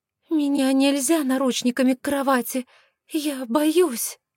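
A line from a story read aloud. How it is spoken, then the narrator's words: Frightened babbling. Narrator (Russian): Испуганно пролепетала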